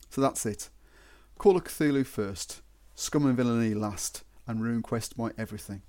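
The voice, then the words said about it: Regional accent. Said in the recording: “a different regional accent for overseas listeners to get irritated by”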